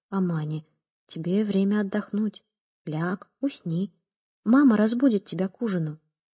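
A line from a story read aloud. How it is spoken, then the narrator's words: Gentle address. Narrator (Russian): Карим мягко обратился к ней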